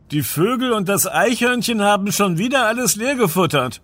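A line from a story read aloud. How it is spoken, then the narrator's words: Called out. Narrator (German): rief Sam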